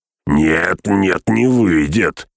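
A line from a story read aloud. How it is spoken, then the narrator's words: Harsh bark. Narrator (Russian): рявкнул погонщик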